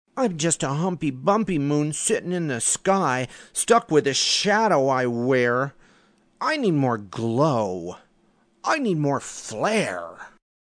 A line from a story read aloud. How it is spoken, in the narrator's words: grumbled back